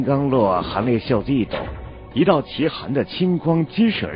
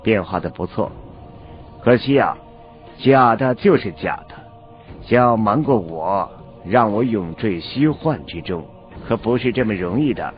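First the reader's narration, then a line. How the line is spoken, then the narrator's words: Flat, indifferent. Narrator (Chinese): 韩立 淡淡的说了一句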